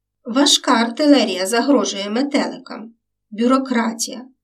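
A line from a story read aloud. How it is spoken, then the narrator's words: Sighing watchman. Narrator (Ukrainian): зітхнув сторож Степан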